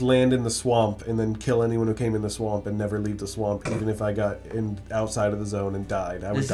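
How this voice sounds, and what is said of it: Usual voice. Nothing is said of it.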